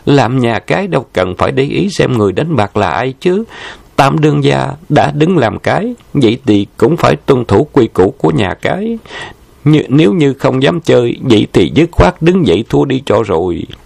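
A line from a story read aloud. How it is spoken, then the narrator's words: Smiling. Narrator (Vietnamese): Trầm Lạc Nhãn mỉm cười nói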